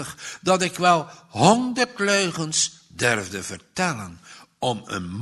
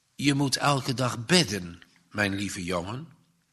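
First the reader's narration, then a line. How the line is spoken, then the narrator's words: Plain. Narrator (Dutch): zegt juffrouw Helen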